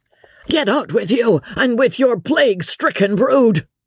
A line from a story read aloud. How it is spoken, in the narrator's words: shouted Bibot hoarsely